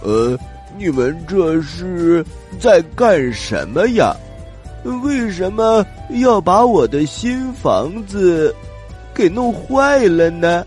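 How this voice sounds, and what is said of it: Slow, drawling character voice. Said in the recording (Chinese): “慢吞吞的声音”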